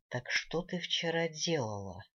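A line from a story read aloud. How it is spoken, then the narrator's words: Soft question. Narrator (Russian): мягко спросил Элронец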